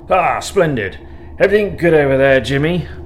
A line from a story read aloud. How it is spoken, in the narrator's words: bellowed the General's moustache, or perhaps his mouth behind it